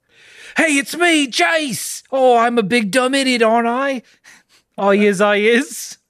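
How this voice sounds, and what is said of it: Attempted Australian accent, dopey character. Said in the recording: “I couldn't do that British. ... anybody of Australian descent or has that accent. ... he is played to be the dumb one”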